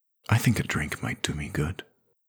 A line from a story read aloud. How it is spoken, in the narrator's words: murmured Moth